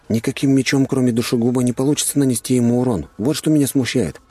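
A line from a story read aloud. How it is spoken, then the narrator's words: Plain. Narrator (Russian): ответил я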